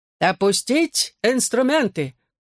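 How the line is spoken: Booming drone. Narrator (Russian): прогудел Жан-Пьер

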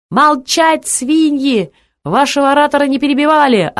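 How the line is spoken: Crowd yelling. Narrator (Russian): орали сидевшие кучи чернорубашечники

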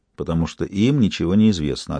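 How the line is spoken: Plain. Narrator (Russian): ответил Бувар

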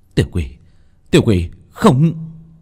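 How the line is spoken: Frightened cry. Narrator (Vietnamese): kêu lên

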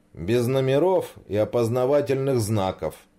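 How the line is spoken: Wry snort. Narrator (Russian): хмыкнул Саша

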